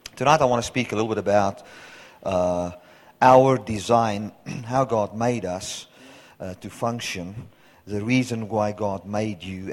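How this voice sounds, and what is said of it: Hoarse, raspy, partly lost voice. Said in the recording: “my voice has gone like this. You hear it's this little bit of it's the Joe Cocker voice... I lost my voice”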